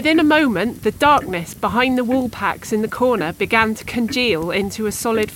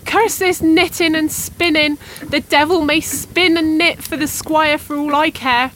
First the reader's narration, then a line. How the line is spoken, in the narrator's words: she cried